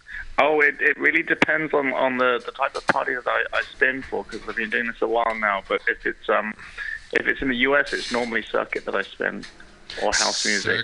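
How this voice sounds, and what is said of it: English accent. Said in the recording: “I'm loving your accent. I had no idea it was like an English accent.”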